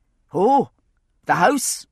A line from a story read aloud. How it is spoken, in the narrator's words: Jamie shouted